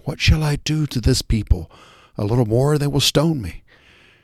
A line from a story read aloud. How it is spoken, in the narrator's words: Moses cried out to the Lord, saying